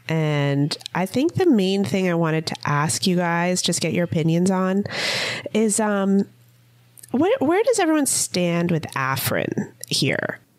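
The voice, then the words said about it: Sick voice with a cold. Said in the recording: “you guys might be able to tell from my voice, but I am sick... I'm feeling a little under the weather. I have a cold.”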